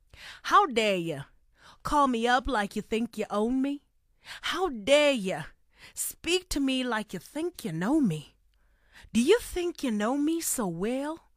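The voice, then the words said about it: Put-on South American accent. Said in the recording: “I am about to recite those lyrics to you in a South American accent ... I just hope I'm able to keep up my South American accent up until the end”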